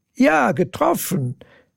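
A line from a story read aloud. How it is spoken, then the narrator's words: Giggling. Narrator (German): Lena kicherte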